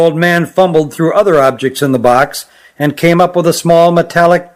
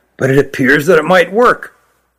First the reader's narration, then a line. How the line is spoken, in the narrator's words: he said quietly